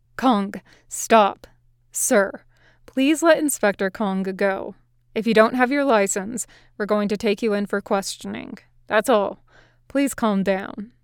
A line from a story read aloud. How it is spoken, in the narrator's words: One said calmly